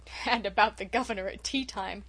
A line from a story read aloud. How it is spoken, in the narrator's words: chuckled unrepentant Dan